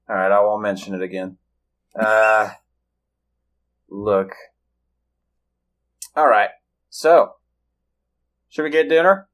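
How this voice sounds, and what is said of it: Southern American accent. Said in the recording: “I know what my accent sounds like... I do declare, I love that southern flair.”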